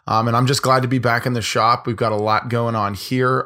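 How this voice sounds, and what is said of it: Hoarse, partly lost voice. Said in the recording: “As you guys can hear, I'm a little bit hoarse ... screaming my face off ... my voice is a little bit gone here”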